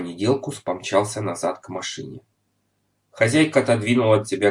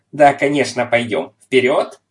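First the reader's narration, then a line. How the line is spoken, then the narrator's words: Angry, frightened shout. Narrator (Russian): хозяйка от испуга сердито крикнула вслед друзьям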